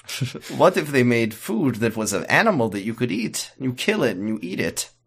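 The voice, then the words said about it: Put-on vague Eastern European accent. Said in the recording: “I'm doing the vaguely Eastern European accent that this actor was doing”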